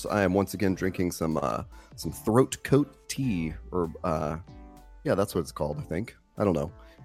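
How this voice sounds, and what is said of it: Very hoarse voice. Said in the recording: “my voice was super hoarse”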